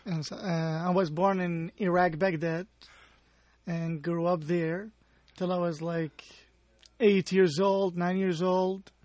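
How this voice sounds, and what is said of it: Non-native English accent. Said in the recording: “because of your accent ... you were not originally from here”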